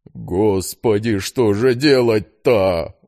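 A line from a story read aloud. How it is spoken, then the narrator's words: Desperate moan. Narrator (Russian): в отчаянии простонал Игнатьев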